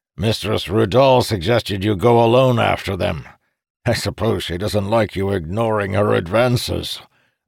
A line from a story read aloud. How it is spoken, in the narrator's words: added with a chuckle